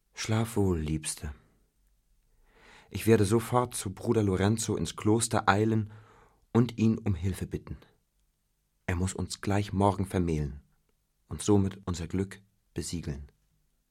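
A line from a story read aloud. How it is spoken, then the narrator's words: Dreamy sigh. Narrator (German): Romeo traumverloren seufzte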